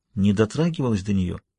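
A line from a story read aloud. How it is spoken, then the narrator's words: Whisper. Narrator (Russian): Югава вновь зашептал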